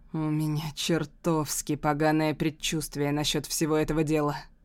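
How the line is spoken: Muttering. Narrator (Russian): бормочет Джуд

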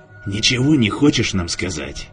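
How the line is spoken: Quiet question. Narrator (Russian): спросил тихо

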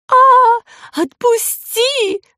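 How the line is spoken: Terrified howl. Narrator (Russian): взвыла она с ужасом

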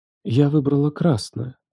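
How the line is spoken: Whisper. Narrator (Russian): прошептала она

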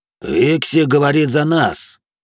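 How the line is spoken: Gloomy, sullen reply. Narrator (Russian): мрачно ответил угрюмый нордеец Рикс

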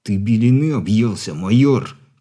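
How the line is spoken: Hissing. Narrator (Russian): прошипел

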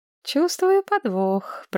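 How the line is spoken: Purred. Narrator (Russian): промурлыкала Мэтчен Садден

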